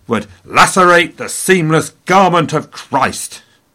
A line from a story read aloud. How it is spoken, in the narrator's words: he shouted